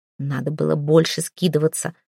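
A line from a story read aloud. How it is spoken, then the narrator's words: Annoyed female hiss. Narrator (Russian): с досадой прошипела одна из соседок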